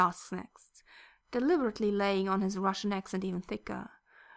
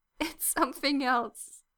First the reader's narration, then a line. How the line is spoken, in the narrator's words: Yuri finally gasps out of breath from laughing